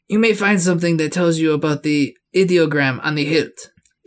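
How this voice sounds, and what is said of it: Put-on accent drifting off target. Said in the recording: “That accent is going just off. ... Know what you're intending, but it's going back in the direction you're not intending.”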